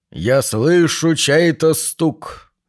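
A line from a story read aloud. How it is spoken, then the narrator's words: Trained, very manly voice. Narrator (Russian): процитировал хорошо поставленным и очень мужественным голосом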